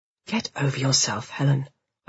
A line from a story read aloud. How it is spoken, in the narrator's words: I hiss inwardly